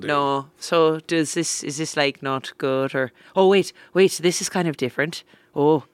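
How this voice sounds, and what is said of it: Put-on Northern Irish accent. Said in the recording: “my brother-in-law has a very thick accent... he thinks my accent is awful... I've heard way worse... Where you turn into like a Simpsons police officer... Is this like Northern Ireland or Northern Ireland?”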